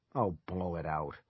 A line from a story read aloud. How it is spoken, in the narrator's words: Ronnie muttered